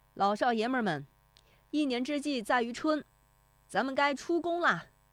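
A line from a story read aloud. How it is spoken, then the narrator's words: Shouting. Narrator (Chinese): 徐德义，他的喊声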